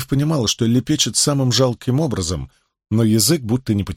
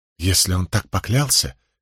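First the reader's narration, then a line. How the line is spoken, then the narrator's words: Interrupting. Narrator (Russian): перебила Илэйн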